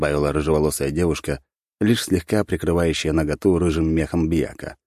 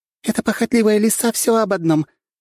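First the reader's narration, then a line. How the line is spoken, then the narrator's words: Giggling fairy. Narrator (Russian): хихикала полутораметровая фея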